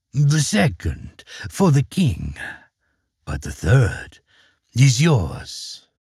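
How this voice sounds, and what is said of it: Evil demon voice. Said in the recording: “said the demon in his evil voice.”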